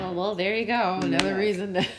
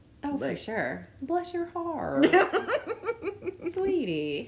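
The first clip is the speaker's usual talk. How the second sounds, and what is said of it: Southern American accent. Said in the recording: “a Southern American accent”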